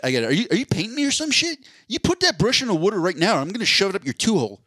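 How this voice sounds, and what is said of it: Abrasive Southeast Pennsylvania accent. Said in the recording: “absolutely nails the Southeast PA abrasiveness... I butchered the accent... That was a lot better... That was a lot closer.”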